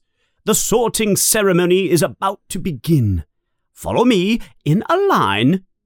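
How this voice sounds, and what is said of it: Stern voice. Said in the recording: “in a stern voice”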